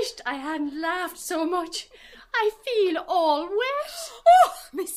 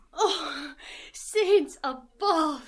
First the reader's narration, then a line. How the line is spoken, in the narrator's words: Miss Deuce said, sighed